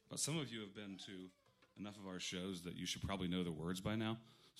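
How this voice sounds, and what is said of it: Hoarse, strained voice. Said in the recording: “I lost my voice yesterday”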